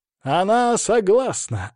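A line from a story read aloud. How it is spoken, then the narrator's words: Loud announcement. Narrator (Russian): объявил Хайпенко громким голосом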